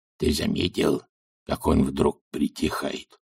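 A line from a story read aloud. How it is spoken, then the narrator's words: Whisper. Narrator (Russian): шепнул Золт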